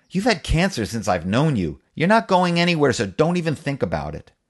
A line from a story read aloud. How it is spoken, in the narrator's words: I snapped